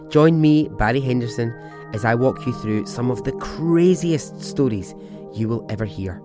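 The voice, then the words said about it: Scottish accent. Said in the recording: “Do you like a Scottish accent?”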